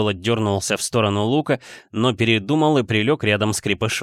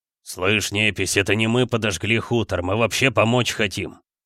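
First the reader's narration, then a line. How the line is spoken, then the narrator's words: Grumbling man. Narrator (Russian): забурчал мужик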